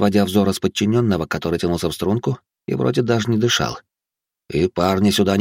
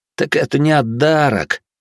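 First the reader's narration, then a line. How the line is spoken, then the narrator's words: Young man's plaintive drawl. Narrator (Russian): жалобно протянул выказывающий перед начальством свое рвение парень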